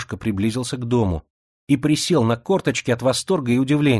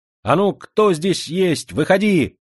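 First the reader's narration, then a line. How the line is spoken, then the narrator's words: Shouting. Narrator (Russian): крикнул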